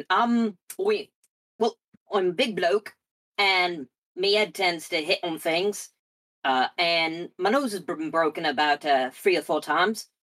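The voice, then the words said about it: Terrible put-on Cockney accent. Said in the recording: “I've got a terrible Cockney accent.”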